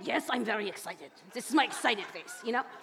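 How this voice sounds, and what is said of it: Put-on serious German accent. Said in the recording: “I married a man of German descent, and you know the Germans, they're very serious ... he really doesn't have an accent, but in my head, that's the way he sounds”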